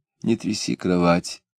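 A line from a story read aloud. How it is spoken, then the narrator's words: Quiet request. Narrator (Russian): тихо попросила жена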